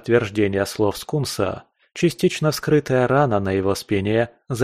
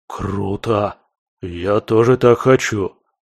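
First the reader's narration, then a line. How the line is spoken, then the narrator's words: Envious drawling toad. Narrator (Russian): завистливо протянул жаба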